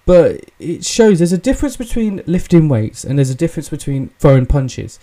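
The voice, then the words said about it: British English accent. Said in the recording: “obviously I'm British, I'm English. Tell by the accent. Not by the face, but by the accent.”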